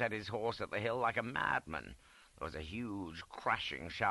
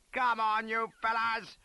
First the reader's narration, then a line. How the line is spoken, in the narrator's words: gave one final yell of